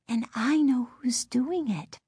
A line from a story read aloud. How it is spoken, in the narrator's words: Lindy whispered